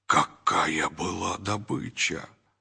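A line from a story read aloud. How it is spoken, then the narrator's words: Whisper. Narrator (Russian): только один из них прошептал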